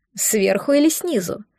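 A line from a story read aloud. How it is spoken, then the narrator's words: Eager question, laughing. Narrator (Russian): С готовностью спросил он и засмеялся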